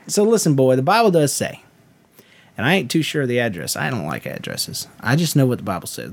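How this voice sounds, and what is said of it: Put-on Southern preacher accent. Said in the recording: “let the Southern accent slip in... I'll do it in a Southern accent... preacher style. You know, loud and charismatic”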